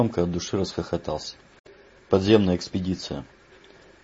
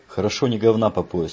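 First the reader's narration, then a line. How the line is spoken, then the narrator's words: Snapped back. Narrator (Russian): огрызнулся Палец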